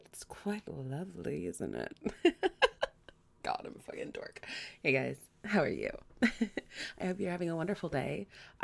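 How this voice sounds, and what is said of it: Raspy, sleepy-sounding voice. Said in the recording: “my voice is still half asleep. So you've got this raspy quality to it.”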